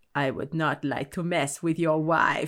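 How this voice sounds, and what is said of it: Bad, strong put-on German accent. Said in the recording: “in this really strong German accent ... That's a really bad German accent.”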